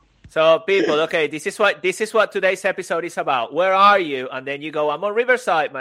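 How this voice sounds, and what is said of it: Usual voice. Nothing is said of it.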